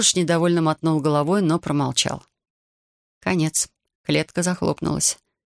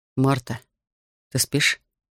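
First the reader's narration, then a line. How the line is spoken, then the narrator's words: Quiet question. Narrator (Russian): тихо спросил Рихард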